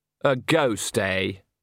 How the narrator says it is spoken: said Andre sarcastically

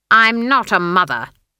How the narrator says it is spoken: snapped Granny

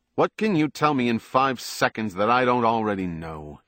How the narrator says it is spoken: he said sharply

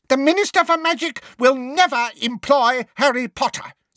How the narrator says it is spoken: said Umbridge, her voice rising furiously

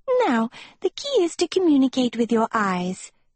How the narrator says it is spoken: she chirped

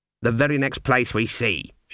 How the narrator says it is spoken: said, setting her jaw firmly

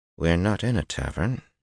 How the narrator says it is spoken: he said through his teeth

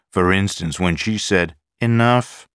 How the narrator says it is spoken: Patricia said firmly

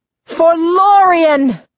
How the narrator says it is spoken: yelling

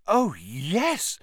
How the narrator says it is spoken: said Hermione eagerly

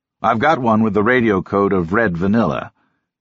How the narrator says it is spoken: he chuckled

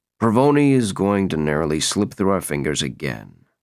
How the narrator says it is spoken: Barnes said gloomily

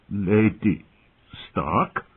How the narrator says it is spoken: Masha Heddle said thickly

